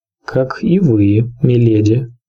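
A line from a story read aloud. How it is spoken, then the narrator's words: Even voice. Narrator (Russian): отвечал сир Борас ровным голосом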